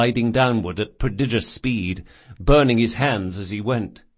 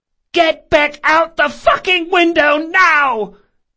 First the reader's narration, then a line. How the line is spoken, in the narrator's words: the woman screamed